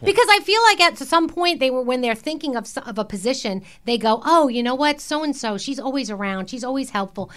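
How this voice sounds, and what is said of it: Bronx accent. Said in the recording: “my Bronx accent ... we love your Bronx accent”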